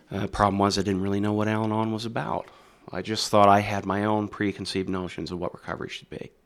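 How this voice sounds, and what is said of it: Mixed Midwestern and Canadian accent. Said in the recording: “you'll hear this really weird accent coming out of this boy here. You're going to hear a little bit of the Midwest, and you're going to hear some Canadian Fargo-esque mixture.”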